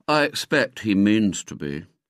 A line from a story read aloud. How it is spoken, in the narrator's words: he said sadly